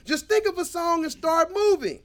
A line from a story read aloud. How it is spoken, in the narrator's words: Ray shouted